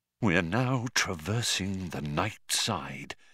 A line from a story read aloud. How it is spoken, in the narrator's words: he said in a hushed voice